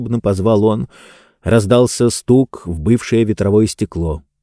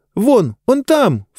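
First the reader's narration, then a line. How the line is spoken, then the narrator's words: Sharp cry. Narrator (Russian): вскрикнула Диба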